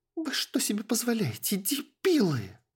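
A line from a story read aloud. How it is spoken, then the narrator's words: Shouting. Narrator (Russian): Закричала Эстель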